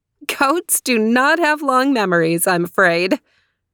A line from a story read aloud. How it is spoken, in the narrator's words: the fairy laughed and said